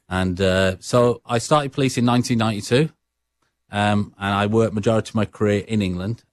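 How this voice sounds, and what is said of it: Brummie English accent. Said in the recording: “The listeners right now are picking up on something, and that is your accent ... my accent, what Sarah Mills would say, is a Brummie accent.”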